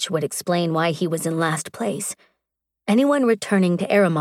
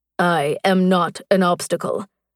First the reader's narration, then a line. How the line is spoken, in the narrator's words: his voice deepened